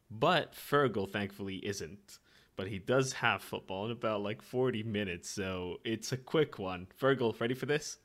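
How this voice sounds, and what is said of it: Weak, partly lost, low-energy voice. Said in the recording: “it's gonna be very low energy from me. I am a bit, my voice is a bit gone, and I am a bit under the weather.”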